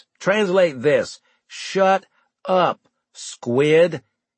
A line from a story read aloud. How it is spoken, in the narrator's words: I said slowly